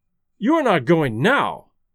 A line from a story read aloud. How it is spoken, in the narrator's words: exclaimed the wagerer